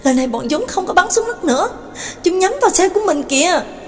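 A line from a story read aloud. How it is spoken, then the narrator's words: Terrified cry. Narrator (Vietnamese): Đường Mẫn kinh hãi kêu lên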